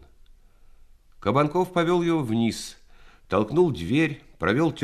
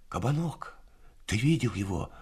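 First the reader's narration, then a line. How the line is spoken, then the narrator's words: Whispered question, young man. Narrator (Russian): шепотом спросил один из них, мальчик лет 19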